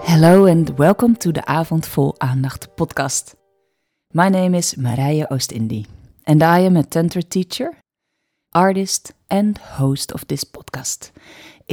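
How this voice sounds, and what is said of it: Dutch accent in English. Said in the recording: “Usually this podcast is in Dutch, as you may hear from my accent.”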